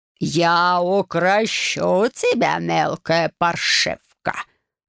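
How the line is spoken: Growl. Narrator (Russian): рыкнул он

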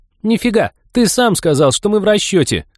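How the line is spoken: Triumphant shriek. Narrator (Russian): Триумфально взвизгнула Молли

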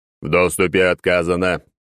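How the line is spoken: Booming over loudspeakers. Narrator (Russian): прогремел из динамиков

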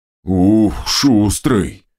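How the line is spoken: Ogre's amused snort. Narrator (Russian): хмыкнул Огр

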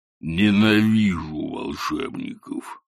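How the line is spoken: Growling. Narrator (Russian): прорычал Кобл

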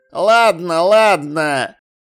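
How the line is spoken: Wry snort. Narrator (Russian): хмыкнул Шнопс

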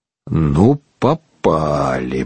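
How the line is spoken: Grumbled. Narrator (Russian): проворчал Шарли

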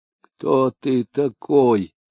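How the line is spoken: Hoarse, weak whisper. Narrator (Russian): хрипло прошептал он, так как силы совсем изменили ему, и он уже не мог говорить полным голосом

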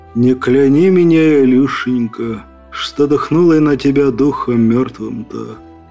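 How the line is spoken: Muffled voice from coffin. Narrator (Russian): глухо доносящийся из гроба голос Святогора

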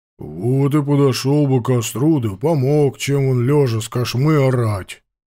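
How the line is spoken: Casual deep bass. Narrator (Russian): как ни в чем не бывало, пробасил дежурный кошевар

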